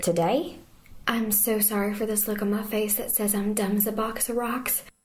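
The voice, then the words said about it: Texan accent. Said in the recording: “From Texas ... I like the accent”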